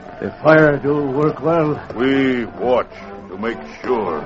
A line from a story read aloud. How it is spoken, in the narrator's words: White Crow murmured